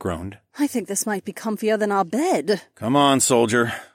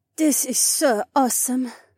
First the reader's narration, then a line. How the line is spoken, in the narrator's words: Haywan sighed